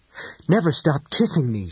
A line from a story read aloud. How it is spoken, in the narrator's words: Shayna gasped